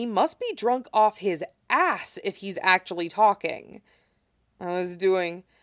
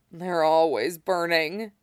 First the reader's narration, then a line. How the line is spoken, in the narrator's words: he moans, but he's almost breathing normally again